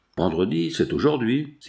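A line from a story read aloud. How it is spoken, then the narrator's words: Captain exclaims. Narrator (French): s'écria le capitaine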